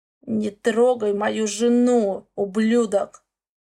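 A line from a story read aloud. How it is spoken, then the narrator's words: Hoarse, from behind. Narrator (Russian): Слышу за спиной хриплое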